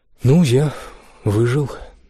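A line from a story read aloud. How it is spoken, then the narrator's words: Breathless exhale. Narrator (Russian): выдохнул он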